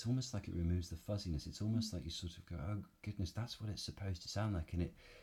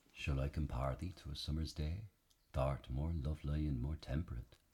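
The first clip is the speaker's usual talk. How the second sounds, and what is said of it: Elizabethan original pronunciation accent. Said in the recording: “what some of this accent, this original, you know, Elizabethan or Jacobean English would have sounded like”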